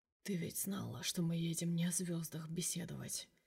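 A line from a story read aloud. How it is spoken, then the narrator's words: Intimate whisper. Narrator (Russian): прошептал ей на ухо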